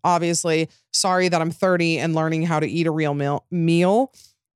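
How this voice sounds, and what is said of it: Utah accent slipping out. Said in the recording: “my Utah accent came out there.”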